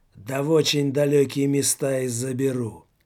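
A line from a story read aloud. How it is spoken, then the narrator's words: Loud hoarse voice. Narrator (Russian): Так же громко, как и Жор-людоед, прохрипел голос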